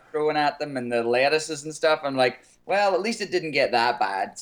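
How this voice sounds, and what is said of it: Foreign accent. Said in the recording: “You still have your accent. ... how cute your accent is”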